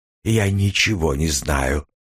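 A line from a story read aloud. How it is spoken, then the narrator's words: Breathless. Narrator (Russian): выдохнула она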